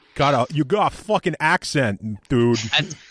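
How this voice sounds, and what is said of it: Mock New York accent attempt. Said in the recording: “that wouldn't even be a Queens accent, what you're trying to do there”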